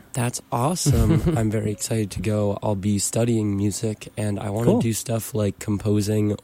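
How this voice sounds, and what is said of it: Worn-out, strained voice. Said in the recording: “My voice is currently a bit shot.”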